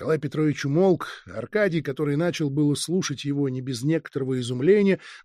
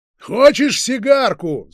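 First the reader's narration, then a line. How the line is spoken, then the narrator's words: Shouting. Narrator (Russian): закричал опять Базаров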